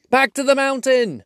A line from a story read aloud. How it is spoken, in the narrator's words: cried the dwarves